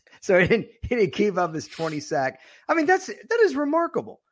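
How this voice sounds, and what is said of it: Voice suddenly higher pitched. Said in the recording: “my voice just went up two pitches”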